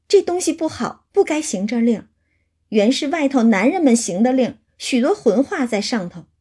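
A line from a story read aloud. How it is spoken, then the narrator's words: Embarrassed, laughing. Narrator (Chinese): 红了脸，笑说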